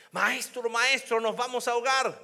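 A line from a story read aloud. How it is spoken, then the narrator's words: Group shouting. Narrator (Spanish): gritaron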